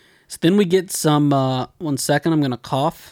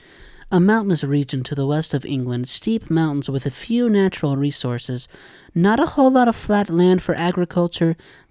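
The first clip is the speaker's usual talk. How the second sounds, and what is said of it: Put-on educational narrator voice. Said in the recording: “let me do my best education voice.”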